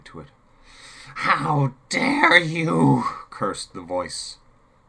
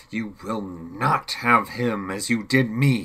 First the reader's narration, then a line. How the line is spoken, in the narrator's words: he spat back contemptuously